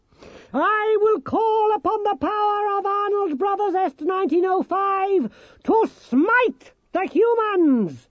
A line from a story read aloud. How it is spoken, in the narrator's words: shouted Nicodemus